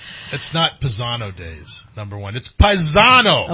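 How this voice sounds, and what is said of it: Shouting loudly. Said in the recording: “you're screaming in my ears”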